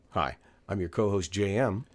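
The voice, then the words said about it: Rough, sore-throated voice. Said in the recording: “I've got a bit of a sore throat right now ... you sound a little rough”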